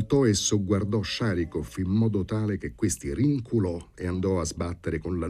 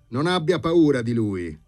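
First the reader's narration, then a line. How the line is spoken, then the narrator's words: Shouted after someone. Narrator (Italian): le gridò dietro Bormental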